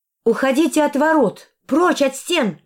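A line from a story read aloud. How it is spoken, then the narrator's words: Loud shout. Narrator (Russian): крикнула я громко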